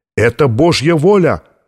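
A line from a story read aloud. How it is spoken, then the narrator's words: Shout echoing under vaults. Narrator (Russian): выкрикнул кто-то, и эхо его голоса прокатилось под сводами Сикстинской капеллы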